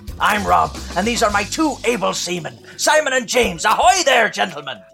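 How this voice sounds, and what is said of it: Gravelly put-on pirate voice. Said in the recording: “do the voice ... It's actually quite painful to do. It's a bit like gargling razor blades ... an impression, I would never have picked Pirate”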